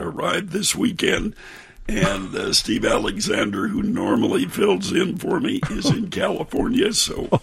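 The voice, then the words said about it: Hoarse, laryngitic voice. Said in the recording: “Every summer, I get a bout of laryngitis and hoarseness. This year it came early.”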